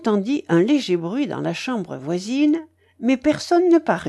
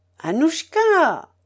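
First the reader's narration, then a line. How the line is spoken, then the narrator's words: Widow shouting again. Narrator (French): cria de nouveau la veuve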